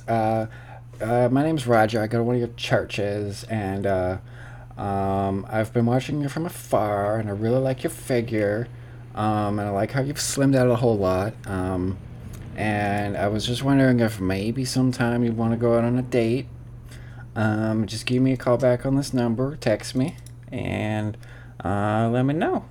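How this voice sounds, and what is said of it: Put-on accent, inconsistently held. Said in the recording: “What the fuck was that accent? I lost that like halfway through. ... Were you trying for like a slight Kenneth?”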